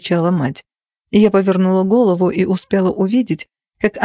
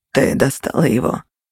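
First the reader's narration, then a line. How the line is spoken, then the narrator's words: Icy question. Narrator (Russian): леденящим голосом спросил Кости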